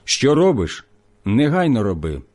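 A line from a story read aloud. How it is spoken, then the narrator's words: Plain. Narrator (Ukrainian): сказав йому Ісус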